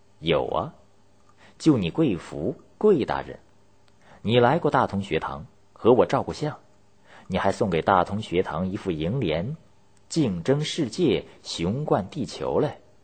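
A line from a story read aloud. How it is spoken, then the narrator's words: Sneering. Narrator (Chinese): 秋瑾…冷笑说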